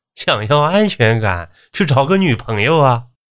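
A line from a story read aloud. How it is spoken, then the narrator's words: Laughing. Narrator (Chinese): 我笑着说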